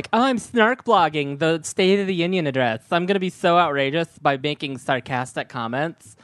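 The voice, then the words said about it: Snarky girl voice. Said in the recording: “That voice you just did was incredibly like Dana Lash... when you were doing the girl voice... The girl voice, like the snarky girl voice.”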